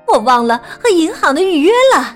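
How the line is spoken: Shouting. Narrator (Chinese): 妈妈大叫道

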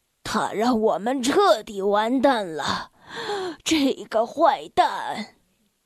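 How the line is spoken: Despairing sigh. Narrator (Chinese): 他绝望的叹息

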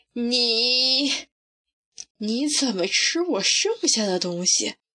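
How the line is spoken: Hesitant, stammering accusation. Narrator (Chinese): 唐莎莎 她也无法轻易的说出这句质问

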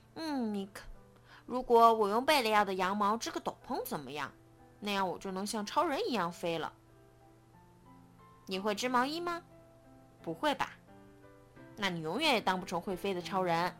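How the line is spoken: Sighing exclamation. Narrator (Chinese): 刺猬皮克感叹道

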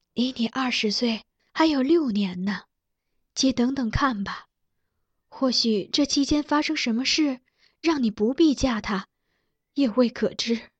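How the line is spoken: Sad, gentle, comforting. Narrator (Chinese): 苗淑仪凄然长叹……柔声安慰她

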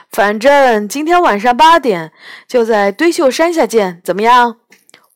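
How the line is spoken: Cheerful, grinning. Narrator (Chinese): 杨永乐笑嘻嘻地说

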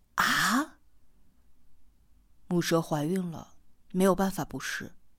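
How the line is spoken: Cold reply. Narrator (Chinese): 四娃冷冷的回答

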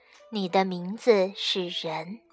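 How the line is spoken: Soft, gentle. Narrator (Chinese): 女娲轻声对小东西说

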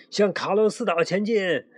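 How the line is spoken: Shouting while rowing. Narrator (Chinese): 卡洛斯一边划船一边喊

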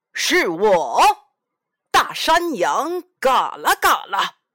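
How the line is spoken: Monster roaring. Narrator (Chinese): 山怪吼叫着

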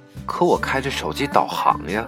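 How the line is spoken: Murmuring. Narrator (Chinese): 我喃喃道

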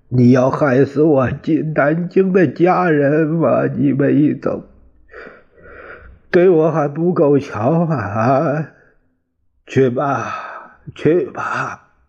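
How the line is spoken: Wailing. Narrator (Chinese): 王耀武大哭起来

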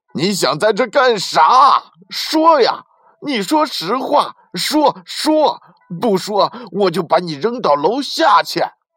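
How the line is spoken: Young man roaring. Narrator (Chinese): 小伙子又一次大吼道

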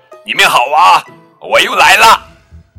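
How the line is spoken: Loud confident voice. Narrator (Chinese): 大声说

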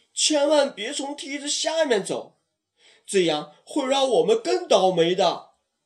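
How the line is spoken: Chubby kid shouting loudly. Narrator (Chinese): 小胖墩高声喊道

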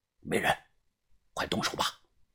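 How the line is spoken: Whisper. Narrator (Chinese): 于哥小声的对我说

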